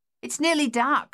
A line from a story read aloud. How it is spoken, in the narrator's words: she called out